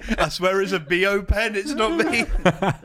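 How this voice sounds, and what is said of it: Impression of a friend. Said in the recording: “That's my impression of Tom.”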